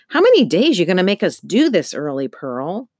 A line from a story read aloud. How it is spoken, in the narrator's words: some asked, her voice grumpy